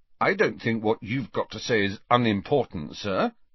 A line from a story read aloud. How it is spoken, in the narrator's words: said Harry stiffly